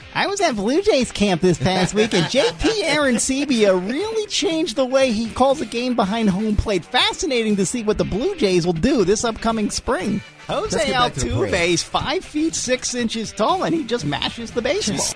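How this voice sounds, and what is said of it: Impression of Timmy Kirchner. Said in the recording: “my Timmy Kirchner impersonation”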